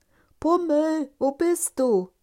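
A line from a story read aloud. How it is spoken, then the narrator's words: Calling out. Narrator (German): rief Punsel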